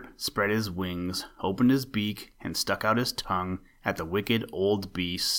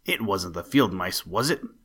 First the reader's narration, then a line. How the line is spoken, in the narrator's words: snarled